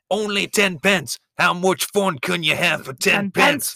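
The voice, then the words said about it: Put-on Louisiana bayou accent. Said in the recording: “that was me doing a Louisiana bayou man, not a Scottish accent”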